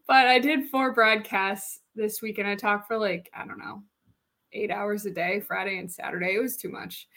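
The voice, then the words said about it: Tired, strained, fading voice. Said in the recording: “I am tired. ... my voice is kind of sounding like it's going a little bit”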